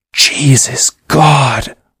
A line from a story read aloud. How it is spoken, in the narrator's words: whispered Eccles